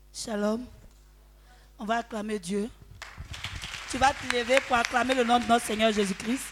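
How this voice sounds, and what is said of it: Slightly hoarse, cracked voice. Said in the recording (French): “Ma voix est un peu cassée.”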